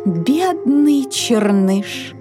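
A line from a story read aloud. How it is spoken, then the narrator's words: Sighing, goose. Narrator (Russian): вздохнула гусыня Тилли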